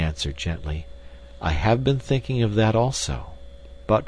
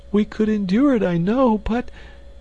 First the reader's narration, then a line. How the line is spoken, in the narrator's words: she sobbed